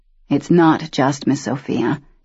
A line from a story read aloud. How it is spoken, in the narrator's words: Daniel said quietly